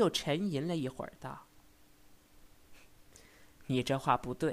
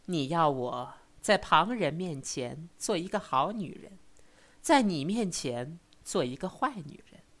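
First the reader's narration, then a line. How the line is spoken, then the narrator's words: Laughing. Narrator (Chinese): 笑道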